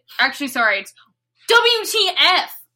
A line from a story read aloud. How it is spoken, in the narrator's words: I shouted